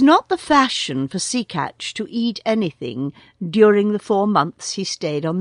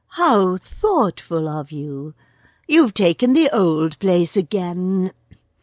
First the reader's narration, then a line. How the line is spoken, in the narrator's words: cooed